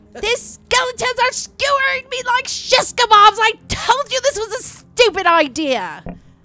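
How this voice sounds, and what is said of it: Yelling. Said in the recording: “Why are you yelling at us?”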